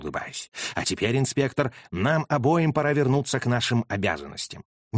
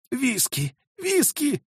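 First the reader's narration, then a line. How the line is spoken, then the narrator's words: Hoarse rasp. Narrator (Russian): прохрипел он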